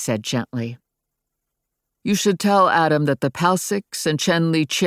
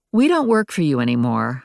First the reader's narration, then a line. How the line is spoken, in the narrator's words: I said dryly